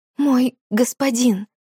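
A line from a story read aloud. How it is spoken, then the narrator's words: Stammering in awed terror. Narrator (Russian): заикаясь, произнесла она в благоговейном ужасе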